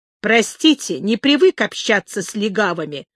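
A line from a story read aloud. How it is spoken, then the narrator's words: Sharp. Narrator (Russian): сказал Элли резко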